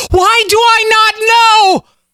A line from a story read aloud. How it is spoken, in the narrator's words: bellowed